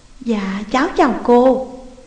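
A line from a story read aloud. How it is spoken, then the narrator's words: Teary, very soft voice. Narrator (Vietnamese): đôi mắt vẫn còn ngân ngấn nước kia, rồi khe khẽ nói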